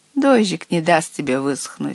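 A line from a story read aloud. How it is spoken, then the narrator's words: Plain. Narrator (Russian): сказал отец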